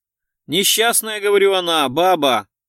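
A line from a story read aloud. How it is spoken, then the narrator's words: Loud shout into ear. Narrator (Russian): Гуров прокричал это ему в ухо, как глухому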